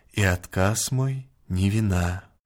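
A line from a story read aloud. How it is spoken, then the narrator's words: Quiet. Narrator (Russian): тихо молвила она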